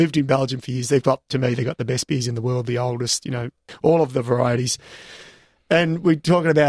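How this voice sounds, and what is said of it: Usual voice. Nothing is said of it.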